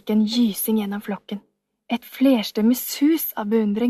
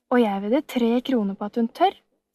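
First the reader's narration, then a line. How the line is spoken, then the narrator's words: Calm. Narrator (Norwegian): sa Maren Sørgården rolig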